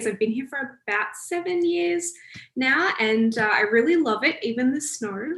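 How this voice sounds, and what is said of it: Australian accent. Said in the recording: “From the accent, you can probably tell I'm from Australia”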